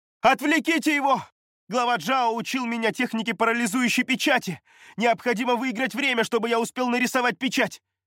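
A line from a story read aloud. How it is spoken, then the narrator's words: Shouting. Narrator (Russian): прокричал Юй Лун, парируя атаку когтистой лапы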